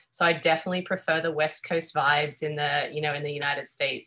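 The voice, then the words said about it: Australian accent. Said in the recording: “If you can tell by my accent, I'm Australian.”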